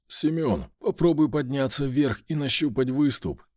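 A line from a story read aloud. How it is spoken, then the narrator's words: Strained hoarse voice. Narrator (Russian): сказал я, хрипя от натуги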